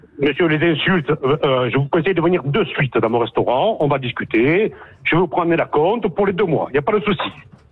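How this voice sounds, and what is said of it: Corsican accent. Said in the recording (French): “il nous fait l'accent corse à deux balles”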